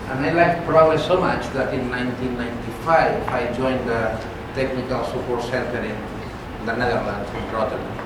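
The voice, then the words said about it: Spanish accent in English. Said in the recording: “I started using Progress 23 years ago in a software company in Spain. This explains my funny accent.”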